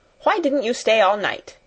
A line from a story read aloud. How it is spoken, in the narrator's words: she snapped